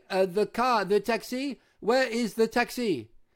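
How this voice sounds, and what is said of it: Loud English in French accent. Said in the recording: “I say my English in a French accent ... And loudly.”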